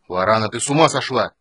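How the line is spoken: Barking. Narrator (Russian): рявкнул Танис

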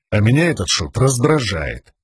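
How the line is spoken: Quiet speech. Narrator (Russian): тихо проговорил Ренорин

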